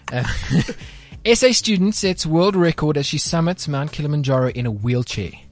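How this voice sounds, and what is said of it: Put-on British accent. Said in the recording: “You have to put on your biggest, best English accent when doing this ... British accent? ... you got to be like Nikki ... This is not Nikki.”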